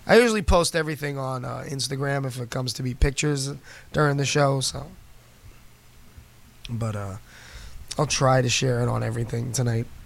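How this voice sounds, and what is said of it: Hoarse, fading voice. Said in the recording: “I'm like so losing my voice.”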